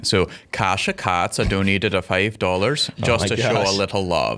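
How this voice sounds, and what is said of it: Put-on Scandinavian accent. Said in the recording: “I'm going to do this next one in a Scandinavian accent.”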